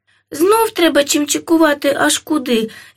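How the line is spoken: Dwarf sighing. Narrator (Ukrainian): зітхнув карлик

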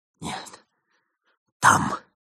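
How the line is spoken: Whispering. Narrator (Russian): прошептал

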